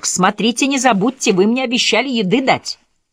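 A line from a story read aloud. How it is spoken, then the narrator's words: Annoyed shout upward. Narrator (Russian): Она не нашла иного способа избыть поднявшуюся в душе досаду, кроме как крикнуть вверх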